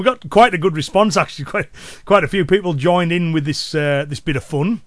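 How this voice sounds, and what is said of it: Cumbrian English accent. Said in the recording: “my Cumbrian accent and local dialect”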